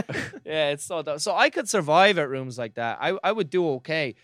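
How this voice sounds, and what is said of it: Usual voice. Nothing is said of it.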